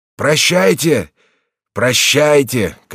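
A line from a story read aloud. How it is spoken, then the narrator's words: Shouting. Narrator (Russian): кричал он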